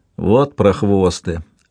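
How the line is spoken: Grumbling. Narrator (Russian): проворчал Мартро

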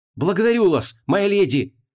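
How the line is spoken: Enthusiastic exclamation. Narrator (Russian): восторженно воскликнул лот Ровен

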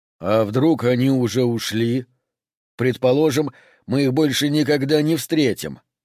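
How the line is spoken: Plain. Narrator (Russian): сказал Лу

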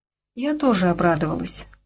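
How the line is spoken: Calm. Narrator (Russian): спокойно продолжала Джессика

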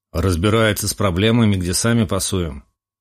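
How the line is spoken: Grim statement. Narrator (Russian): мрачно заявил Романов

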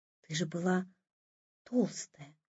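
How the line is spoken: Whispering. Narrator (Russian): прошептала

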